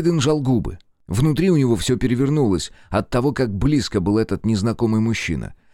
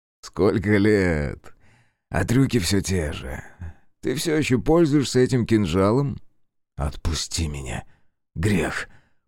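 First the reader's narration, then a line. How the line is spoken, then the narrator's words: Quiet, forced-confident mutter. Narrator (Russian): процедил негромко Грей, стараясь дышать глубоко и нагоняя на себя уверенности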